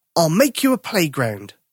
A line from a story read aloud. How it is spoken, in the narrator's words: Tom said